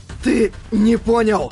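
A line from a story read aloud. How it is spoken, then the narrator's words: Hoarse wheeze. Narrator (Russian): Прохрипел Юджио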